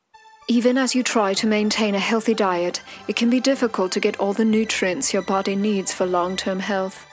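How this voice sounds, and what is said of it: British accent. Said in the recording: “does anything vitamin related sound healthier if it's presented with a British accent?”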